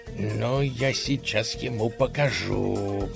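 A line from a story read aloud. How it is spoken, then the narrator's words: Through gritted teeth. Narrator (Russian): процедил государь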